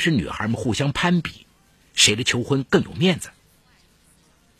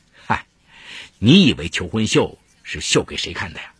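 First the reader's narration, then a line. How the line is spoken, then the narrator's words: Laughing. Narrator (Chinese): 徐小明笑着说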